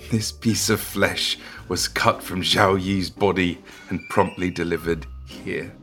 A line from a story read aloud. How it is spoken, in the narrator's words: Xu Xiao let out a chuckle and explained